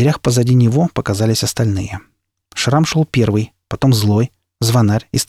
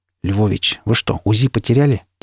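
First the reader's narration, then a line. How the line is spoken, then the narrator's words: Quiet question. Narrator (Russian): тихо спросил я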